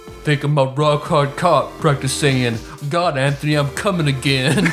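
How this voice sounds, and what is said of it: Imitates another person's voice. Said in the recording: “I'll try to do an impression of your impression. ... That sounded more like my Shaq.”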